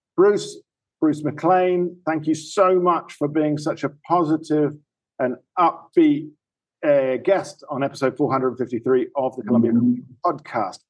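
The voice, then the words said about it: Speaks with a noticeable accent. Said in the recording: “in case you don't understand my accent”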